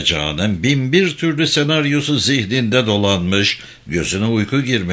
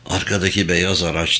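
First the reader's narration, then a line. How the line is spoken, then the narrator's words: Whispering. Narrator (Turkish): diye fısıldadı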